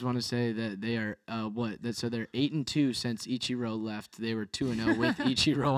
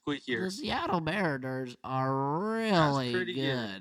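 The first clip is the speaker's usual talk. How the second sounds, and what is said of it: Squeaky imitation of another person's voice. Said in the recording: “I really wish I had a better Tim Kirkchin impersonation. ... squeakier.”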